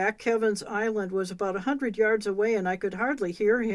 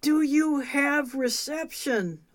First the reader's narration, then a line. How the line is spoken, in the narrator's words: called out